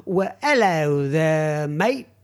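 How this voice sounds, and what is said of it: Bad put-on London accent. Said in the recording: “that's a really bad London accent.”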